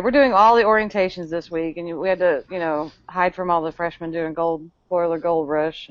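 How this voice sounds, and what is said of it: Heavy Texan accent. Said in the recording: “You sound very Texan tonight. ... Your accent is just heavy tonight.”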